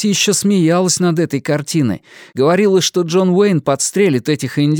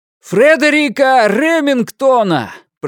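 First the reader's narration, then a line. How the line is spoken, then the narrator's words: Shout at full lungs. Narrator (Russian): прокричал он во всю мощь легких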